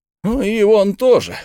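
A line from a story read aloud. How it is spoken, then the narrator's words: Exclamation. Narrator (Russian): воскликнул Бен Зуф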